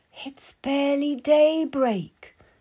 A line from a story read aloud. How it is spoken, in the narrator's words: moans